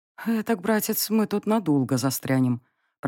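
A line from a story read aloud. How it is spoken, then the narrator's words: Muttered under breath. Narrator (Russian): пробормотала я себе под нос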